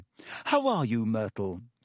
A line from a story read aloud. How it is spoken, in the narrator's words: said Hermione in a falsely bright voice